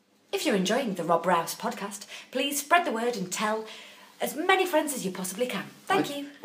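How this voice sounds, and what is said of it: Posh, polite telephone voice. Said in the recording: “telephone voice”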